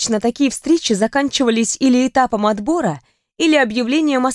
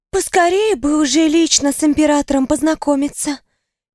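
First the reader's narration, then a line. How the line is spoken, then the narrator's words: Dreamy sigh. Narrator (Russian): мечтательно вздохнула одна из девушек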